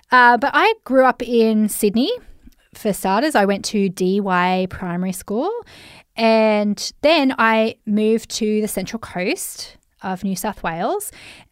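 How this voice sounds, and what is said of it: Australian accent. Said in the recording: “I'm Australian, if you haven't heard my accent, mate. I'm Aussie, mate.”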